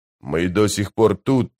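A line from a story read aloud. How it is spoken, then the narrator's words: Muttered through teeth. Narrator (Russian): процедил быстрый Бен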